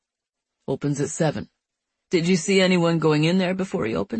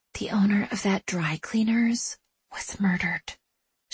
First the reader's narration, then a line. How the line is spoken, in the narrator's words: she whispers